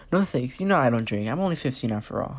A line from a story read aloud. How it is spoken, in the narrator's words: I said